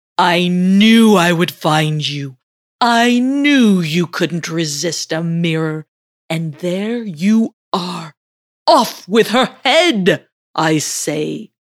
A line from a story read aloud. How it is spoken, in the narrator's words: she heard Apollo bellow